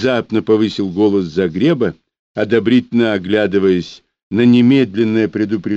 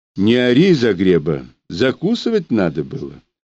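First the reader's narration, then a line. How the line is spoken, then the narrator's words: Almost calm advice. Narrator (Russian): посоветовал Захар почти спокойно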